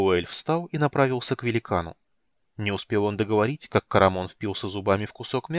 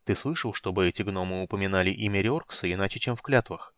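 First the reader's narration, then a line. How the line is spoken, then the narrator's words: Quiet question. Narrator (Russian): тихо спросил полуэльф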